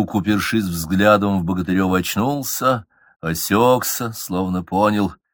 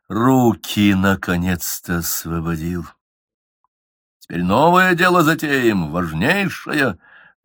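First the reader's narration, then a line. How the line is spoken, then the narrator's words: Slow, thoughtful speech. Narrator (Russian): Государь, погрузившись в глубокую задумчивость, медленно произнес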